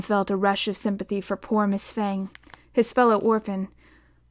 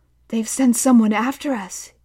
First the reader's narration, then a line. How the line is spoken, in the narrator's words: gasped